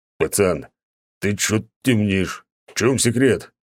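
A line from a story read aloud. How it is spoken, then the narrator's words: Growl. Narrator (Russian): прорычал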